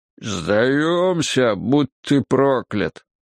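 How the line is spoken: Muffled, as from grave. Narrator (Russian): Глухо донеслось, будто из могилы

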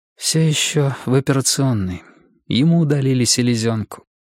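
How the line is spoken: Dull flat voice. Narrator (Russian): сказала она таким же тусклым голосом, который был похож на ее глаза

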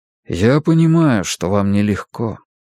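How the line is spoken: Quiet. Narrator (Russian): тихо сказал он

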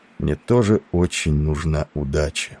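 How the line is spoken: Barely audible. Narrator (Russian): прибавил он едва слышно

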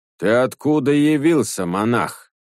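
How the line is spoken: Menacing question. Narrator (Russian): грозно спросил дух

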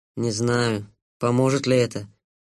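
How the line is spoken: Sad kitten. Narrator (Russian): печально сказал котенок

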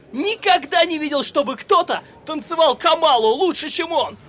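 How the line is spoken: Shouting man. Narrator (Russian): крикнул мужчина

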